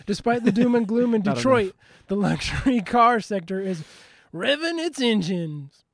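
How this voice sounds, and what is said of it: Usual voice. Nothing is said of it.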